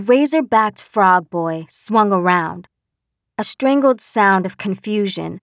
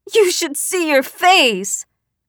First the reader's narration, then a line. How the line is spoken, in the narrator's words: a short green one shrieked